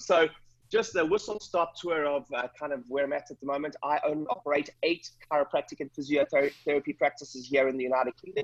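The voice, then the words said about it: South African accent, fast speech. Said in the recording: “I'm originally from South Africa. So funny accent ... I speak quite quickly”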